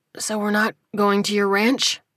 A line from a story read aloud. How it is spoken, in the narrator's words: He asked, voice raspy